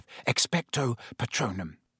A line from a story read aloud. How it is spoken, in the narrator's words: Harry repeated under his breath